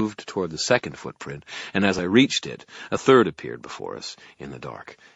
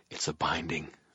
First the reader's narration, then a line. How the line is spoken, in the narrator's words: I murmured in reply